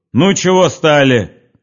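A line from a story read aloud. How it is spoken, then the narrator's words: Shout. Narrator (Russian): крикнул околоточный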